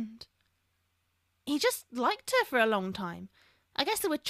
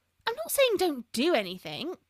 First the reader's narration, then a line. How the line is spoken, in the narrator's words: Lavender exclaimed